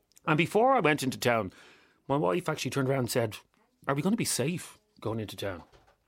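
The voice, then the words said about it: Hoarse voice. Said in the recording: “I'm very hoarse.”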